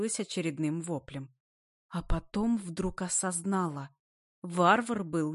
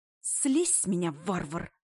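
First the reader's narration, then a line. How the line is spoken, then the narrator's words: Hissed. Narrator (Russian): зашипела я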